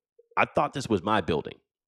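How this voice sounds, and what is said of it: Imitates another person's voice. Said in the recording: “I'm trying to do my Patrick Ewing voice.”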